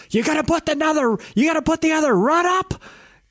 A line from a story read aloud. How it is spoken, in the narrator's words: Yells